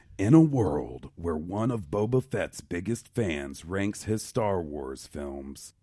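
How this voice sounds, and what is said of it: Dramatic movie trailer narrator voice. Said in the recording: “your famous movie trailer voice ... That's a taxing effect on the voice”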